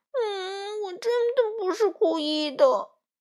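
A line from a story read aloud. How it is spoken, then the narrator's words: Aggrieved crying. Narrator (Chinese): 委屈的哭了起来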